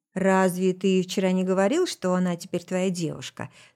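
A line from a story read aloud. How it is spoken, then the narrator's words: Calm, detached reply. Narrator (Russian): спокойно ответил Кейн, как будто меня тут и не было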